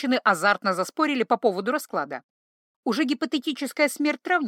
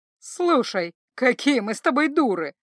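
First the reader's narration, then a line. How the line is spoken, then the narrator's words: Sudden exclamation, witch. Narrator (Russian): вдруг воскликнула ведьма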